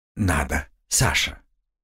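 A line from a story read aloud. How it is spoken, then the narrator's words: Soft. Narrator (Russian): мягко сообщил мне Слава 2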